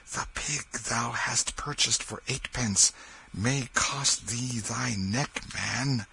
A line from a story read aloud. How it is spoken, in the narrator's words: Then he shut his voice down to a whisper, and said in the man's ear